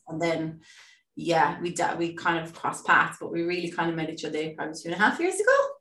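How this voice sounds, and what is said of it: Irish accent. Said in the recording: “She is the most amazing Irish person I've ever met. Irish person, Irish lady ... Are you going to hear her accent? And it's, I just love it.”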